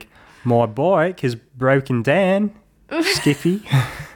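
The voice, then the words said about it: Put-on Australian accent. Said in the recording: “his Australian would be like”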